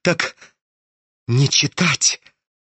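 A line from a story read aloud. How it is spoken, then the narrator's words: Fearful whisper, crooked smile. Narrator (Russian): прошептал он ему как-то опасливо, скривившуюся улыбкой на посиневших губах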